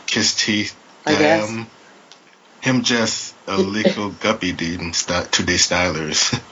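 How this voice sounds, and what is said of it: Put-on Jamaican accent. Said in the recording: “Is this more Jamaican dialect? ... my Jamaican accent”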